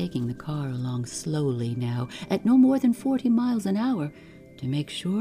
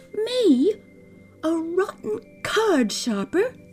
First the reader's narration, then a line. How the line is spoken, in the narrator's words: cried